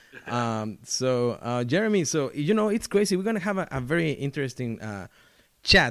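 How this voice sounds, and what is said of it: Noticeable accent in English. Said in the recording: “my awful accent”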